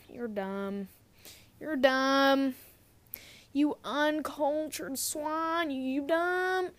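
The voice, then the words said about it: Mock Southern US accent. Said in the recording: “The Southern accent ... sound like I run the horse rodeo”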